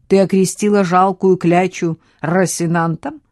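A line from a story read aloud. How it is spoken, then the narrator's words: Bursting laughter. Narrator (Russian): Хьюго расхохотался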